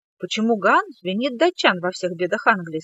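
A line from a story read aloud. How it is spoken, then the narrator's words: Plain. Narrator (Russian): спросила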